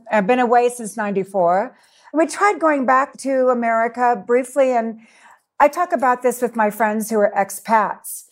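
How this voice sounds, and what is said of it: American accent. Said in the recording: “I am American. I still consider myself very American... I haven't lost my accent.”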